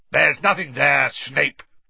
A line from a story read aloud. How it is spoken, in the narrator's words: barked Moody